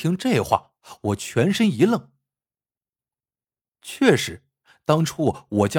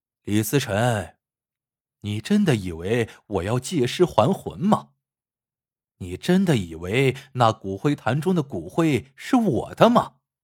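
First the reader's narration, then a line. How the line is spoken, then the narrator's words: Loud laughing. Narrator (Chinese): 肖若雪大笑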